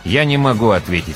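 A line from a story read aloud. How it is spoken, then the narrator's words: Plain. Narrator (Russian): сказал он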